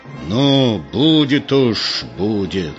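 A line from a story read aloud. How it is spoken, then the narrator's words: Angry, through gritted teeth. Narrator (Russian): Егор сказал зло сквозь зубы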